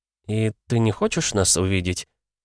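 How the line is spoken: Trembling voice. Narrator (Russian): спросила она дрогнувшим голосом

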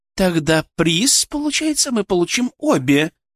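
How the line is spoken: Exclaiming. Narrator (Russian): воскликнула Алена

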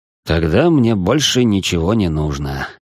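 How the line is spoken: Sighing. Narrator (Russian): со вздохом ответил Марк

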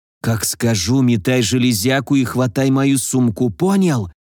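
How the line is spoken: Whisper. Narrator (Russian): Прошептал

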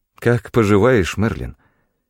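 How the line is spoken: Sighing. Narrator (Russian): Я вздохнул

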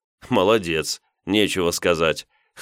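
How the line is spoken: Wry snort. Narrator (Russian): хмыкнул я

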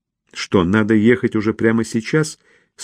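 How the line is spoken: Plain. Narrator (Russian): спросила Мэрибет

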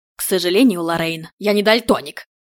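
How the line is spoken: Grating through teeth. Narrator (Russian): проскрипел зубами глава разведки

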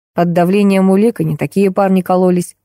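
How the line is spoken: Smirking snort. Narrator (Russian): хмыкнул Егор

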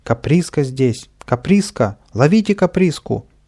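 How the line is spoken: Shout. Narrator (Russian): закричал сержант

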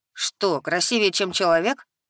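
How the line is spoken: Flattered chuckle. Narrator (Russian): польщённо хмыкнул лис

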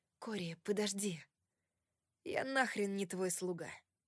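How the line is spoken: Mutter. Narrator (Russian): пробормотал он

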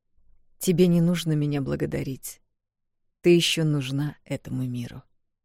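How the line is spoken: Calm reply. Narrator (Russian): спокойно ответил Алекс

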